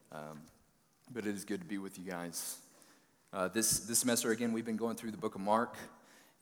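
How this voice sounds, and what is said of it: Hoarse, froggy voice. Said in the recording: “I'm feeling a little bit under the weather. My voice is a little bit froggy”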